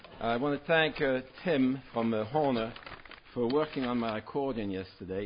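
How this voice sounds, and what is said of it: New Jersey accent. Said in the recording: “If you're wondering about the accent, I live in Pennsylvania now for 2 years. ... No, it gets worse. Prior to that, I was 50 years in New Jersey”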